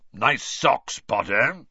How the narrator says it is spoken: Moody growled

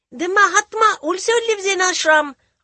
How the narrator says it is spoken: shouted

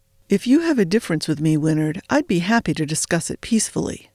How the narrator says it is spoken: Carden replied, with just a hint of an edge in his friendly voice

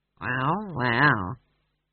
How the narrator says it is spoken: he said weakly

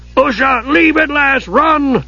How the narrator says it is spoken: Dugan screamed

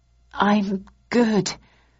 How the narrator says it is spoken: replied shakily

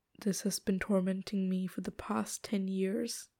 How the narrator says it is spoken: he says gravely

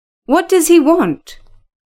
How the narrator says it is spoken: asked Mrs

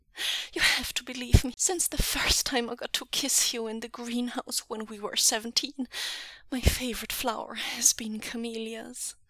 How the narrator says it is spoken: Wei Ying holds onto Lanjan and gasps

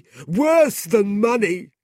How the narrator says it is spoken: Gride shouted

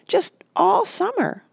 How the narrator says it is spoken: Rush said happily

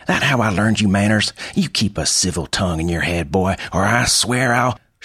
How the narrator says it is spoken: snapped

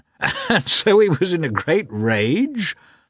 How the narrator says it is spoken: repeated the commander, laughing

